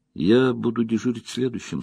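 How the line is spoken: Plain. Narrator (Russian): сказал он Хурину

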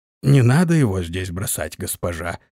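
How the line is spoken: Hoarse reply. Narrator (Russian): хрипло ответил

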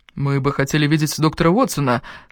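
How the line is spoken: Plain. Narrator (Russian): сказал Годфри

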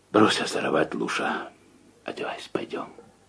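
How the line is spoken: Quiet, restrained irritation. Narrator (Russian): Всеми силами сдерживая накопившееся раздражение, он тихо сказал

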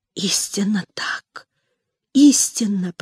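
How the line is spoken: Whisper. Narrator (Russian): прошептала Хуршида Бану

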